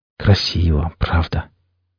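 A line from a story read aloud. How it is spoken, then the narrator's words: Quiet. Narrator (Russian): тихо проговорил Денис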